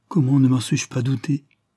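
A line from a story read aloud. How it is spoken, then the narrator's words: Stammered. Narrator (French): bégaya Maria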